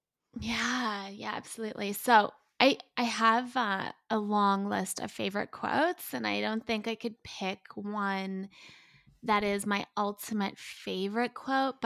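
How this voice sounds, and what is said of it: Noticeable foreign accent. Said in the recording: “accent is so beautiful ... It's so gorgeous”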